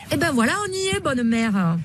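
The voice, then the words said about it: Exaggerated Marseille French accent. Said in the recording (French): “Mireille la Marseillaise... avec l'accent... vous avez tous ces accents, quitte à forcer un peu le trait”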